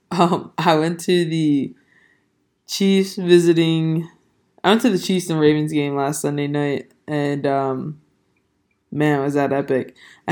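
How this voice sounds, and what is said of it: Hoarse, partly lost voice. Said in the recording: “my voice is not there really ... my voice is still not 100% back ... losing my voice”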